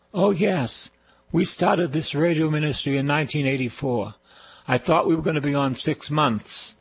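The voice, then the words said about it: Boston accent. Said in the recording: “you talk with the Boston accent... Say the word car, not ca, car... I'm a Bostonian”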